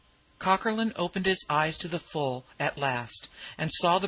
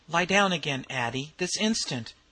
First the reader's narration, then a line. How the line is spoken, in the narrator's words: commanded McQuillan sharply